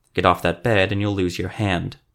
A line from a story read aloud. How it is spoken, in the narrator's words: growled